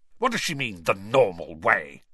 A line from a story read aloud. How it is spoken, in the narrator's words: he spat